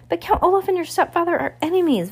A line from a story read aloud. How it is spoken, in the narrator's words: Violet cried